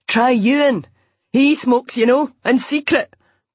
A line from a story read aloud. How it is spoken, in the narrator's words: Duncan shouted after her